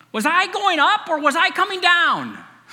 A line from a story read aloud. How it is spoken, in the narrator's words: Suddenly she yelled